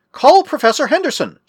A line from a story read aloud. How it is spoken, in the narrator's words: shouted Mark